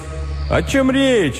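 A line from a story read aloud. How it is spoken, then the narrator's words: Cheerful exclamation, policeman. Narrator (Russian): весело воскликнул полицейский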